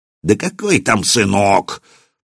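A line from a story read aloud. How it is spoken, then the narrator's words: Hissed in pain. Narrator (Russian): сморщился от боли, прошипел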